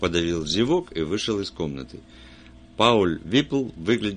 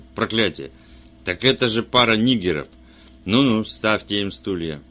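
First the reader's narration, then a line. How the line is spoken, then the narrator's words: Exclaimed, sheriff. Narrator (Russian): шериф воскликнул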